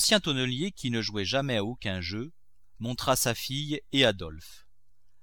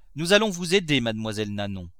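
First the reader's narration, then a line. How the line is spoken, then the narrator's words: Cheerful, joyful. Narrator (French): dit gaiement Madame des Grassins, toute joyeuse de la joie qu'elle avait causée à Eugénie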